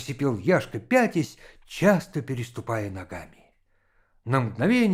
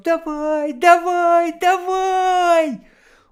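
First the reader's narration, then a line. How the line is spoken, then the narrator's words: High-pitched shout. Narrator (Russian): закричал тонким голосом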